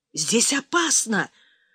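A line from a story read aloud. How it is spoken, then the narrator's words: Whisper from behind doors. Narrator (Russian): зашептал ракетчик из-за дверей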